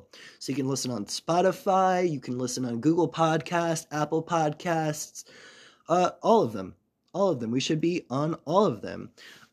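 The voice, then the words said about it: Voice sounds sick, under the weather. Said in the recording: “I'm a little bit under the weather, so do forgive my voice on this one.”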